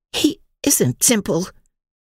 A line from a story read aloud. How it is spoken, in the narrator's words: cried Emily indignantly